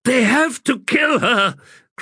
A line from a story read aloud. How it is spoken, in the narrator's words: cried Erastus